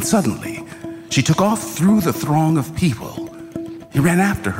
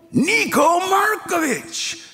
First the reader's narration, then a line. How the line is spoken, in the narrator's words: Yaakov cried at the top of his lungs